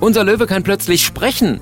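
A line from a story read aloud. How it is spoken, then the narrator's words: Called out. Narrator (German): ruft er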